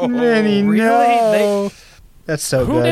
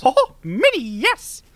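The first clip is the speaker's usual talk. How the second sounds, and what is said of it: Mickey Mouse impression. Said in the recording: “say Minnie, yes in Mickey voice”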